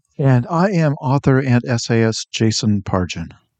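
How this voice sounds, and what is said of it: NPR radio announcer voice. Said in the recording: “I like the NPR voice... It just kills your throat.”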